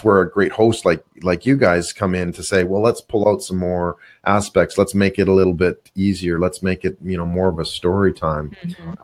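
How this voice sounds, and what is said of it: Canadian-sounding accent. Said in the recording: “I think a Canadian accent”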